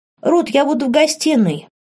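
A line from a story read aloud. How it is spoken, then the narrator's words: Calling out. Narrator (Russian): крикнула кому-то принцесса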